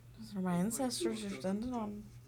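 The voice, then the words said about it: Put-on Scottish accent. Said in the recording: “Pretty good accent. ... Pretty good Scotty accent.”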